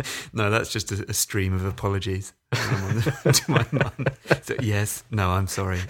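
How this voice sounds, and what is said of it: Usual voice. Nothing is said of it.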